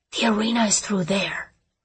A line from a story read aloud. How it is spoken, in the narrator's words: Lee whispered